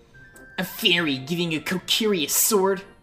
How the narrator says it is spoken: Mido scoffed

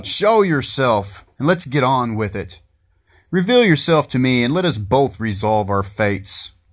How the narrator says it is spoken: In anger, I shout

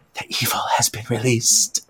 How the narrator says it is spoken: Before passing out from fear, she whispers

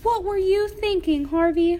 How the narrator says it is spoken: yelled Mom

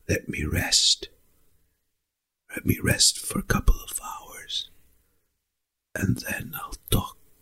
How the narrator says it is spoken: a small, small whispering that comes out of his breath, and it says

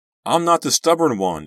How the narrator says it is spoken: I yelled after him

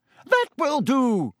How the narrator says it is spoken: shrieked Madam Hooch, zooming between them

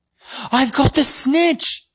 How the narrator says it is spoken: he shouted

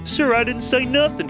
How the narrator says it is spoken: pleaded Bodega, mystified

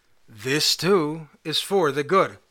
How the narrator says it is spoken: Nachum Ish Gamzu calmly said

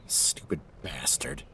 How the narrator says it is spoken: I mutter, though my heart goes out to him

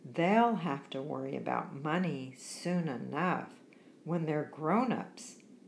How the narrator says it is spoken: he added with a sigh

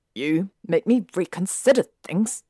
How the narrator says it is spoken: Draco snapped

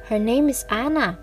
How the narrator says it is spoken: said quickly

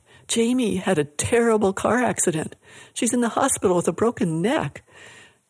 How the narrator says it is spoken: Her voice trembling, one of Jamie's friends cried

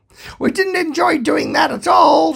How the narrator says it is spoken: shouted the other cop

